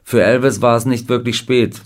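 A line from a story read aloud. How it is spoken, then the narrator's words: Plain. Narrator (German): sagte er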